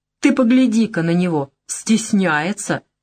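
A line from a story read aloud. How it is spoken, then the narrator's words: Slightly hysterical laugh. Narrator (Russian): Она чуть истерично хохотнула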